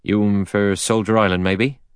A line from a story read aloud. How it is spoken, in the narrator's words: he asked in a soft Devon voice